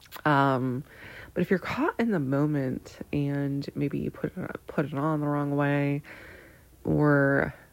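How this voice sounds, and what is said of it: Congested, stuffy-nosed voice. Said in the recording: “I have to blow my nose. ... That's why I sound weird.”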